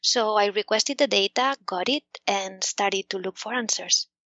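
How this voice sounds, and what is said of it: Spanish accent. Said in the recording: “the government of Spain, where I'm from, in case you hadn't noticed from my accent”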